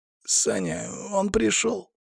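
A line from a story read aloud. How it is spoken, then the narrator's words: Strained hoarse voice. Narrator (Russian): послышался сдавленный хриплый голос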